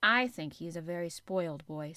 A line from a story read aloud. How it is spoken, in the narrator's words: said Mary